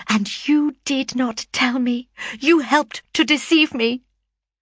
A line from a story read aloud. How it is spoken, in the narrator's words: cried he with bitter vehemence